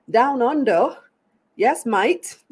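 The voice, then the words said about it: Poor put-on Australian accent. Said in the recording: “Terrible accent.”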